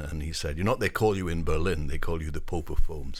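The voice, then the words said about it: Northwest English accent. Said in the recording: “you can tell from his accent, he is not originally from California, the United States ... I grew up in the northwest of England, a village that is between Manchester and Liverpool”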